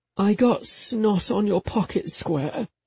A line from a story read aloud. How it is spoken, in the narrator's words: I mumbled